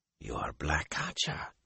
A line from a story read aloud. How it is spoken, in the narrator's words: he whispered